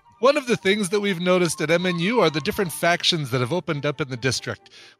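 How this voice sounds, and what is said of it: Put-on South African accent. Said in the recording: “apologize for my accent... you notice that South African accent sounds like me trying to do a New Zealand accent?... I thought it sounded like you trying to do your Borat.”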